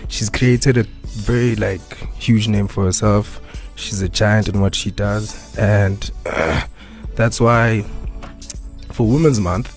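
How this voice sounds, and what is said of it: Shaky, nervous voice. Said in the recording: “my voice is a bit shaking. I think you can hear. I'm nervous”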